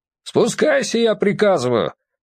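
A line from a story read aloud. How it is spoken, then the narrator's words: Shouted. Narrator (Russian): опять крикнул Валерий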